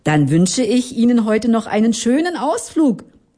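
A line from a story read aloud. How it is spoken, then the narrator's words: Called out. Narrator (German): rief der Familienvater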